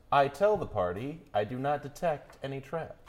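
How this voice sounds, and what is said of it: Weird, silly character voice. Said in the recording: “In that weird, stupid voice.”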